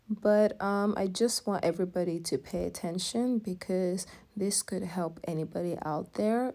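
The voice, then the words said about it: Low-energy, subdued voice. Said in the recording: “my voice is very different, definitely not as energetic as you guys would hope”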